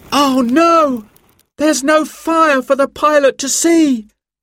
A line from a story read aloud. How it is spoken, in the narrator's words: cried Simon